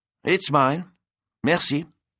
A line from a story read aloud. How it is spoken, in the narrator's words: Claude replied stiffly